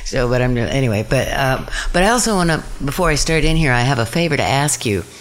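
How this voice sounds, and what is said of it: Flat, deadpan tired voice. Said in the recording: “if I sound a little deadpan, it's because I only got like 4 hours of sleep last night, so I guess I am a little deadpan.”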